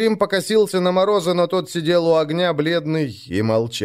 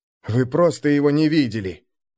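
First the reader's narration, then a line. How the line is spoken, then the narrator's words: Mutter. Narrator (Russian): буркнул он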